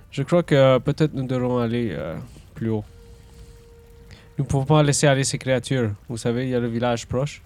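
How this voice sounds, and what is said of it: Put-on different accent. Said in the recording (French): “J'ai changé mon accent.”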